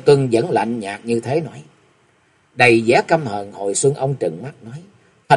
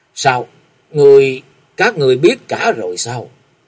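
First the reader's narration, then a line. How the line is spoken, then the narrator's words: Terrified stammering question. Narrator (Vietnamese): Kinh hãi vì Địch Tuân và Thanh Linh cư sĩ lắp bắp lên tiếng hỏi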